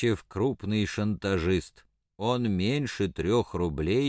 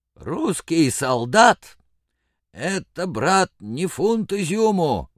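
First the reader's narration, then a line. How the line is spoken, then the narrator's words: Hoarse exclamation. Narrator (Russian): воскликнул хрипло Рыбников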